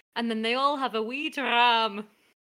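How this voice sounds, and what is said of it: French speaker attempting Scottish accent. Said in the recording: “a very French way of saying something very Scottish ... I've been working on my Scottish accent ... it's not improving much ... Scotland via Calais.”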